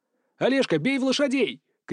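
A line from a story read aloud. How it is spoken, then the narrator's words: Shout. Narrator (Russian): крикнул я другу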